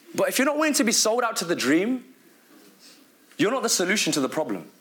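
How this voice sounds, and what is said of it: Strong British accent. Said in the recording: “my British accent is so strong, I start to say some words very British”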